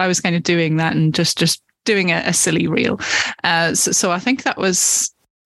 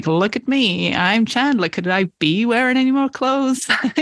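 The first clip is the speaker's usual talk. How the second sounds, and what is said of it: Put-on American accent, Joey impression. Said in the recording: “that scene with Joey and Chandler where Joey walks in wearing all of Chandler's clothes ... excuse the American accent there”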